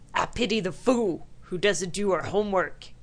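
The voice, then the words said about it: Imitates another person's voice. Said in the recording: “Mr. T impersonation ... That was the worst Mr. T impersonation ever.”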